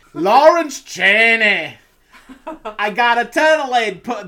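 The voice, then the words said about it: Weak attempted Scottish accent. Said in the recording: “that is not a Scottish accent here ... You were, like, getting there ... some of the words you were getting there”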